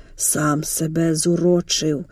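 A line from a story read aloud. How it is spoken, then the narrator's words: Hoarse croak. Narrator (Ukrainian): прохрипів Дорош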